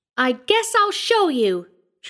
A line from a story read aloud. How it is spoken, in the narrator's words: squealed, just as she might have defied the biggest and roughest boy in her school